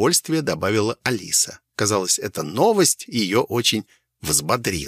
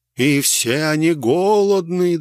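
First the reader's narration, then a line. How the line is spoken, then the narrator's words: Grave sepulchral voice. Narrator (Russian): добавила Алиса за могильным голосом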